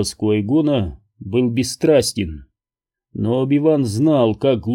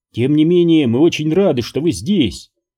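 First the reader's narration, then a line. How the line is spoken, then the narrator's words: Ringing voice. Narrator (Russian): звонким голосом добавила Веерта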